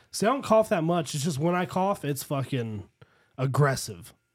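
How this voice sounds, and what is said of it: Raspy, hoarse voice. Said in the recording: “I'm still don't have my voice fully back. ... You sound a little raspy.”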